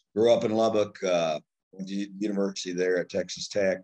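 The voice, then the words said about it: Texas accent. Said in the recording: “moved to Lubbock, Texas, up on the High Plains when I was about 7. So I come by this accent, honestly.”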